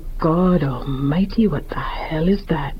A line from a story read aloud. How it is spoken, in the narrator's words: she could hear him whisper